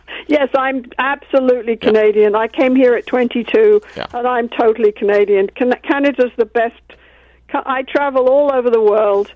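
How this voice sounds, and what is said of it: Foreign accent in English. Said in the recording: “I know you got that weird accent, but you're Canadian pretty much”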